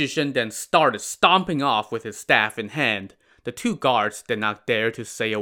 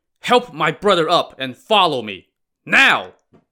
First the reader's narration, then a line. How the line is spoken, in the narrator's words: he shouted again